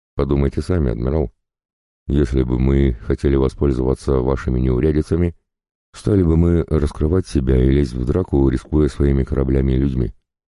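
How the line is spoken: Calm, reasoned speech. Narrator (Russian): Он говорил спокойно и рассудительно

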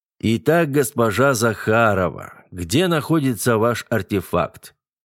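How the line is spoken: Deep bass voice. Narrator (Russian): пробасил мэтр Зентек

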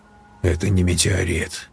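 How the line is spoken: Cold statement. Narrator (Russian): холодно констатировал Берг

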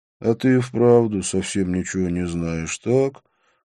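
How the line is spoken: Sighing. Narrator (Russian): вздохнул Вишну

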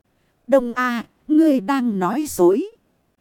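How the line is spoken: Smiling. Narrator (Vietnamese): Người kia mỉm cười nói

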